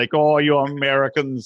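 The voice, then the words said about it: Bad mixed Canadian and French-Canadian accent. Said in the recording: “that's probably a terrible Canadian accent... half regular Canadian and a half kind of uh, Montreal. It was like half French and just half dumb sounding”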